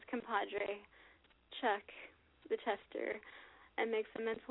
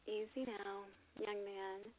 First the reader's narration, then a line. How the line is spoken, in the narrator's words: Sable coos